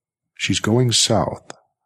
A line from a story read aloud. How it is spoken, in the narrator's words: Ralph said smoothly